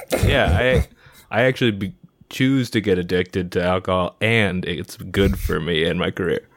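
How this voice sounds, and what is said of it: Australian accent. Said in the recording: “Well, that's like Australian. ... you have an Australian accent”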